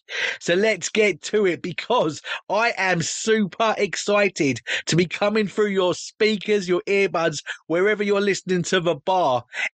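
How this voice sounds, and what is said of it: British accent. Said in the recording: “coming to you from across the pond over in the UK ... apart from the accent”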